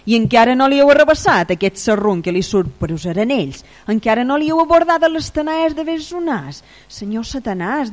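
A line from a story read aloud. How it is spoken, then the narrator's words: Bellowing. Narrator (Catalan): deia aquell bramant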